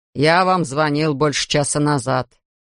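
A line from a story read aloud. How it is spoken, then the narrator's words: Angry grumble. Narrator (Russian): сердито пробурчал Элвин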